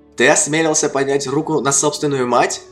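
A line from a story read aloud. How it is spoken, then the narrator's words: Furious shout. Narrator (Russian): прокричала Эгвин с лицом бледным от ярости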